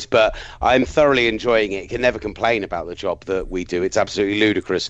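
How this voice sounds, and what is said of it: Tired-sounding voice. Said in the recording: “I'm just I'm tired as well... you'll probably be able to hear it in my voice.”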